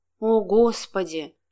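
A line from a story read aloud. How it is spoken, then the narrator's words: Strained woman's voice, phone. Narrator (Russian): выдавил женский голос в трубке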